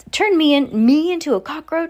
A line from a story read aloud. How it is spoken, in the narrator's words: shouted Mr